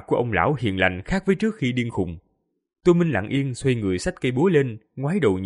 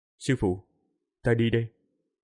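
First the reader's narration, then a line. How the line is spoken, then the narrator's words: Quiet voice. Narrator (Vietnamese): Tô Minh nhỏ giọng nói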